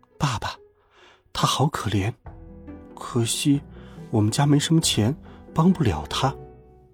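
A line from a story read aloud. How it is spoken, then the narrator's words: Quiet. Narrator (Chinese): 我小声说道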